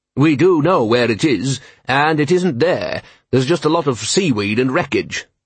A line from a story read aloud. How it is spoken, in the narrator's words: said the dean coldly